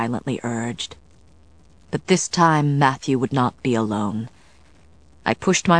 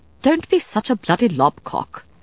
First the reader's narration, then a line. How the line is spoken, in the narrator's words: the vampire said in a crisp British accent